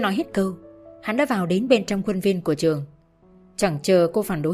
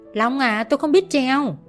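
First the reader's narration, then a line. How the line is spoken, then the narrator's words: Loud shout. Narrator (Vietnamese): Cô hét lớn lên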